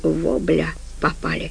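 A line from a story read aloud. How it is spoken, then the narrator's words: Muttering. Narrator (Russian): пробормотал Димон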